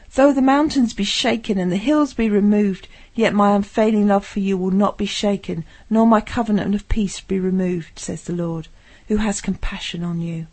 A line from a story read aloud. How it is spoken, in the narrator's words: Isaiah cried